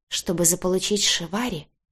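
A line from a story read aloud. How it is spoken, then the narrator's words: Heartbroken whisper. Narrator (Russian): прошептала я, чувствуя, как в душе умирает что-то светлое, яркое и до обидного хрупкое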